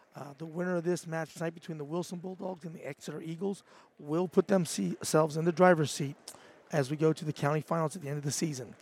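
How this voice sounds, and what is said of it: Raspy, slightly breaking voice. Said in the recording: “As you can hear, my voice is a little raspy, a little bit breaking out”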